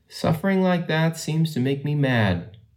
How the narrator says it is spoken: he said at last in his own even tones

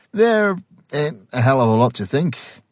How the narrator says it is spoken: said cheerfully

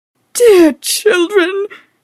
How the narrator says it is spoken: she sobbed, her maidenly bosom heaving tumultuously

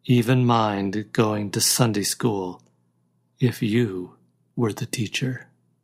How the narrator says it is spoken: he added softly

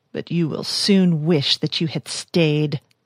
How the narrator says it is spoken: spat with a guttural virulence

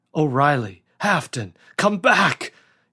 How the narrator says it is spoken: yelled David hoarsely

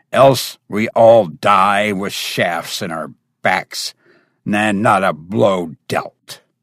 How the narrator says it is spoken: growled the Cimmerian

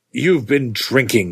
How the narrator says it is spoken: I said sternly

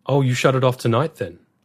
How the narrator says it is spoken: asked the warden

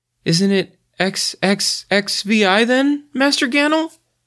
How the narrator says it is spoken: he asked feebly

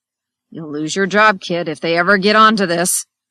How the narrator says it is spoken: he growled

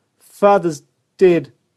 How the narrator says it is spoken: Jenny sobbed

